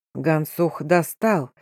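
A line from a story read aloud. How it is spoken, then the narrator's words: Quiet, satisfied, carrying voice. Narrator (Russian): тихо, удовлетворенно проговорил хан, чей голос в наступившей тишине был слышен, как гром в степи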